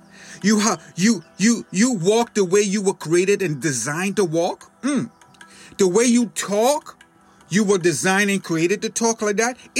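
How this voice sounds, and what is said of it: Bahamian accent. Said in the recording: “you have an accent and you're from the Bahamas ... you still have your accent”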